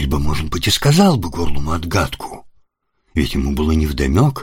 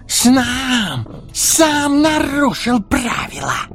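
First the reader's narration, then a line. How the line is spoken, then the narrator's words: Angry hissing. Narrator (Russian): злобное шипение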